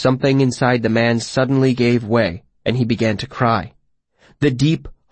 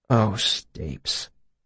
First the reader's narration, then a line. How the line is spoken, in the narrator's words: he said softly